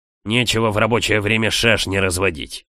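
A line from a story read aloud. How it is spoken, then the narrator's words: Angry growl. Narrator (Russian): рычал на меня мужчина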